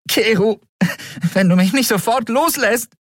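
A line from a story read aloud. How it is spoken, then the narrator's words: Calling out. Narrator (German): rief Endriel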